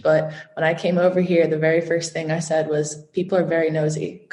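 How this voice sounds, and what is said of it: Non-Irish accent. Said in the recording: “you can tell by my accent, I'm actually not from Ireland”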